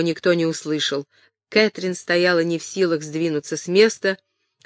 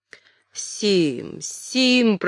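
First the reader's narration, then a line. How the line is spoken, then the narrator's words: Hoarse croak. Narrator (Russian): прохрипел Гиббон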